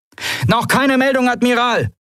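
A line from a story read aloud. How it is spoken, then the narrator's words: Called out. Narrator (German): rief Veldris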